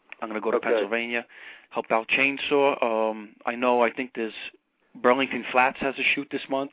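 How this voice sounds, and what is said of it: Brooklyn New York accent. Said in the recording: “your accent is Queens ... It's actually really a Brooklyn accent. ... I started to talk like Ed Norton.”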